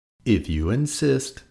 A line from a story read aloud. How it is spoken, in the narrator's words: answered the friendly ladybug sweetly